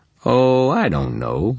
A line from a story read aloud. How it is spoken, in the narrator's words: I chuckled